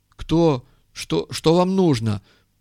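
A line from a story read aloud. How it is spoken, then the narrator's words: Timid babble. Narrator (Russian): пролепетал он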